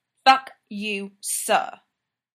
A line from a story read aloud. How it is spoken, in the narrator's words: Clint growls back